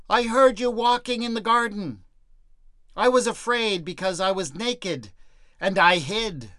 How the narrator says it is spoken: The man did not dare to show himself, but shouted out from his hiding place

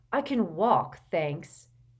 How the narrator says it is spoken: said Harry irritably

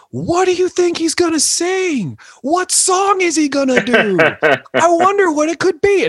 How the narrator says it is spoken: I start screaming at the top of my lungs

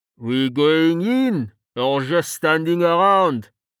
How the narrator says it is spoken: Val asked, his voice muffled

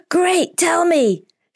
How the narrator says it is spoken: shouts an excited Pablo, and his joyful thought

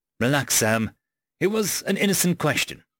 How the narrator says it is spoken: Carlos sighed

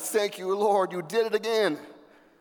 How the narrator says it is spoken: she shouted

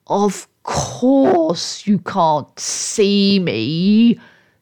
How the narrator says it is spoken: said the voice scornfully

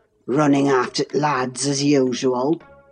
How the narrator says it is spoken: croaked Joseph, to thrust in his evil tongue

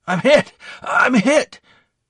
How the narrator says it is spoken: gasped

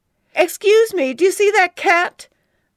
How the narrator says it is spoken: cried

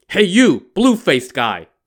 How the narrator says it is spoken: the monk shouted

